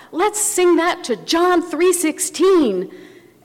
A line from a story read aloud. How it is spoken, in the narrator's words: the music director called out